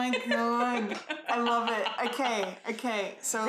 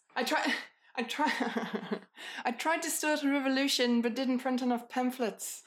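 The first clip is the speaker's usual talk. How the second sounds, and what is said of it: Imitated Kiwi-accented character voice. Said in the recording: “That Kiwi accent kills me ... Bring on your Korg ... I don't do it very well”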